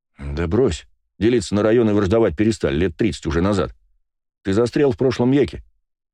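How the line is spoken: Calm reply. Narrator (Russian): спокойно ответил я

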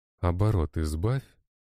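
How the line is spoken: Calm. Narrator (Russian): спокойно произнес я

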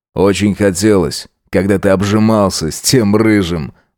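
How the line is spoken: Scoffing snort. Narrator (Russian): хмыкнул Джек

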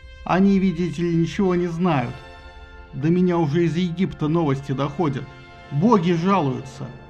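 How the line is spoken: Nervous forced laughter. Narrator (Russian): Афродита непринужденно, как ей самой бы хотелось, но на самом деле нервно расхохоталась

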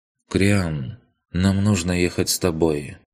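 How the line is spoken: Calm. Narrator (Russian): спокойно сказал он

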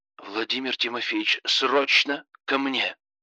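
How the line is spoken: Sharp, curt. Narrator (Russian): Резко сказал он

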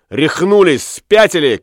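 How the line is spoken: Shouted. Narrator (Russian): крикнул он

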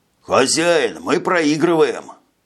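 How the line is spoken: Hoarse, coughing. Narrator (Russian): Прохрипел капитан Дифар и закашлялся

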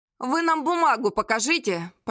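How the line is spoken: Hoarse wheeze. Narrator (Russian): Просипел Мастерков

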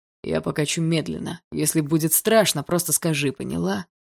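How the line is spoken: Muffled low voice. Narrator (Russian): Глухо сказал

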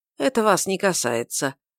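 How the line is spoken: Completely calm. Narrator (Russian): ответила совершенно спокойно мисс Вер

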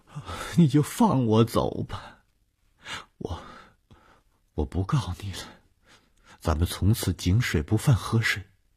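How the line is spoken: Sighing, despairing. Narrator (Chinese): 宋清哀叹了一声，绝望地说

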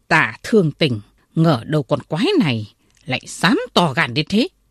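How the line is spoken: Angry. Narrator (Vietnamese): Đạo sĩ tức giận nói

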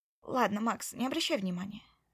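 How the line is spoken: Calm now. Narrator (Russian): сказала уже спокойно

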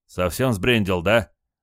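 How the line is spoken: Menacing question. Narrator (Russian): грозно спросил Петр

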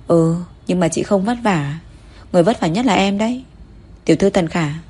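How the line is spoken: Mysterious smile. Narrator (Vietnamese): mỉm cười thần bí

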